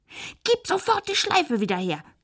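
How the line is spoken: Shrieking. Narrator (German): kreischte Josefina

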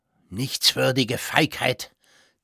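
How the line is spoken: Hissing through teeth. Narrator (German): zischte der Makler Gosch zwischen den Zähnen

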